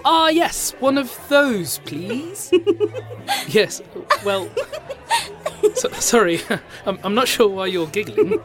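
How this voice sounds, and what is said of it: Foreign accent. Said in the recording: “It's your accent. It's cute. It confused me.”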